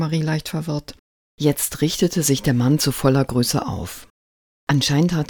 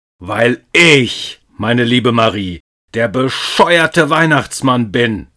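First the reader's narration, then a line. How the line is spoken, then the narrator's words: Thundered. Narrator (German): donnerte er sie an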